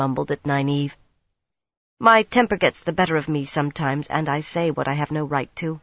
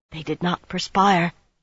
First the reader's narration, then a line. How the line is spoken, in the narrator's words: Berowyn whispered at her shoulder